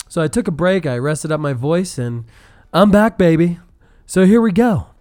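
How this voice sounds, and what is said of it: Slightly raspy voice. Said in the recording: “it's still a little raspy”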